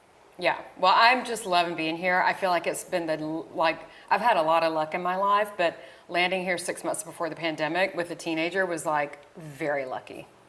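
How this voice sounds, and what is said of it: Southern American twang. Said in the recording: “you still have that Southern twang”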